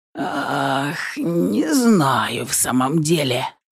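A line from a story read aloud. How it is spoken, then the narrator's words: Strangled mutter. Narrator (Russian): сдавленно пробормотал Марат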